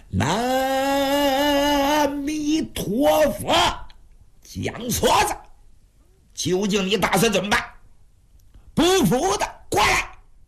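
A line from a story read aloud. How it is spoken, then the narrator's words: Fierce shouting. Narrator (Chinese): 陈东波叫唤的比谁都凶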